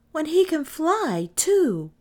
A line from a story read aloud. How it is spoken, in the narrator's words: cried Kay, who for this minute believed in the wind boy